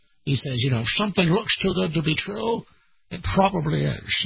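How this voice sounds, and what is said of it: Bad Sean Connery impression. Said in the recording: “my very bad Sean Connery impersonation”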